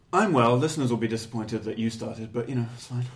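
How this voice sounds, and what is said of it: English accent. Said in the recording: “the English accent of”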